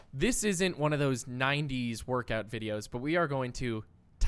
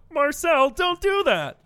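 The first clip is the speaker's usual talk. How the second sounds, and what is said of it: Imitates a sitcom character's voice. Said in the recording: “quick Ross impersonations ... Bad Ross Impersonations”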